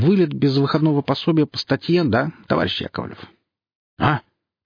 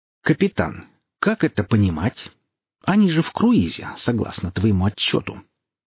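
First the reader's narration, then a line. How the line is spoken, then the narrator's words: Deceptively soft, level question. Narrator (Russian): Майор, не повышая голоса, обманчиво мягко спросил капитана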